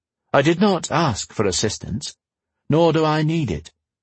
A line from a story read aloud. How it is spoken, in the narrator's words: Arch said calmly